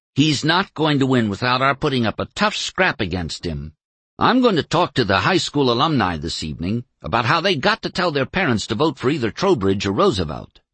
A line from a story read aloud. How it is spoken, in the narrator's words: snapped Julian Falk